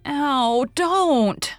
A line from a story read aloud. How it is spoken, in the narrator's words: shrieked poor Anne